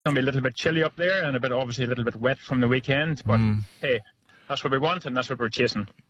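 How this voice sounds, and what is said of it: Speaks with a noticeable accent. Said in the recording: “Love your accent.”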